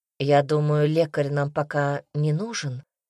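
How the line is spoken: Quiet question. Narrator (Russian): тихо спросил Казимир

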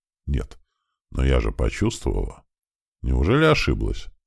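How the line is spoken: Quiet talking to herself. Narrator (Russian): Она тихонько говорила, не обращаясь ни к кому

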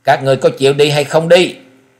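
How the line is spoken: Old man's tiger-like roar. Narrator (Vietnamese): Lão nhân gầm lên một tiếng như mãnh hổ

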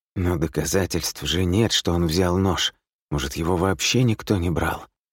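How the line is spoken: Listless mutter to himself. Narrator (Russian): Вяло бормочет себе под нос

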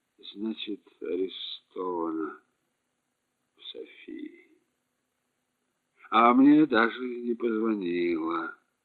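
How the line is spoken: Muttering. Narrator (Russian): бормотал Еремей

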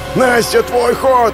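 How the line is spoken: Yelling. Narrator (Russian): заорал Кеша

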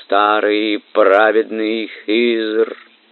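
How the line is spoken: Melodious pleading voice. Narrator (Russian): Она певучим голосом, полным мольбы, произнесла

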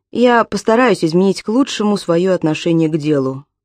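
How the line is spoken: Sighing promise. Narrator (Russian): вздохнув, пообещал Тайлер

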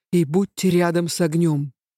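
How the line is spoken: Tense commanding voice. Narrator (Russian): велел Авинар напряженным голосом

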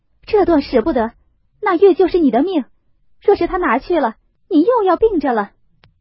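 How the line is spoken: Hurried, urgent. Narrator (Chinese): 袭人听说，急忙拉住宝玉道

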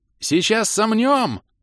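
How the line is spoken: Yelling, adrenaline-charged. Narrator (Russian): завопил кто-то с передозом адреналина в голосе

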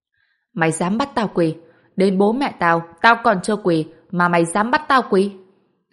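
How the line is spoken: Struggling, screaming. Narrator (Vietnamese): vùng vẫy gào thét

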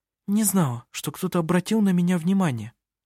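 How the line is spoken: Agitated mutter. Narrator (Russian): взволнованно пробормотала она

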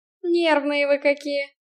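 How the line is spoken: Snorting. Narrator (Russian): хмыкнул Киган

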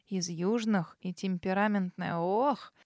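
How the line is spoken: Sighing. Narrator (Russian): Кормилица вздохнула снова

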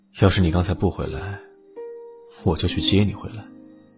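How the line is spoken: Gentle, firm. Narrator (Chinese): 楼影 温柔且坚定道

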